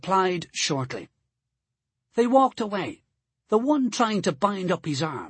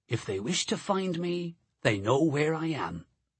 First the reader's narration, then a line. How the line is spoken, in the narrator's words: I replied quietly